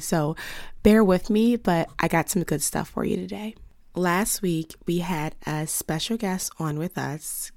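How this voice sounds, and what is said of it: Lost voice, mostly whispering. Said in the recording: “you can hear it. I have lost my voice. ... I'm giving you a little bit of ASMR, because I'm doing a lot of whispering”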